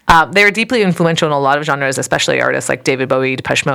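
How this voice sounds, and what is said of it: Usual voice. Nothing is said of it.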